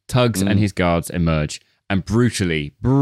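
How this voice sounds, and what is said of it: Usual voice. Nothing is said of it.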